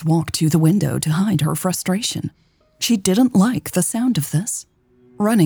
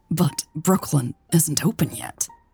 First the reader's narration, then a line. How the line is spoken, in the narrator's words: stammered